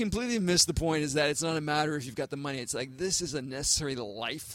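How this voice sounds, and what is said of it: Usual voice. Nothing is said of it.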